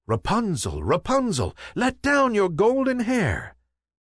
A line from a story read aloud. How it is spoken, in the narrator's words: the prince came and called out